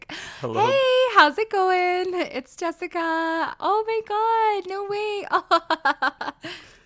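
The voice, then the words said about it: Bright, friendly customer service voice. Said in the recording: “customer service voice... that's how I sound at work”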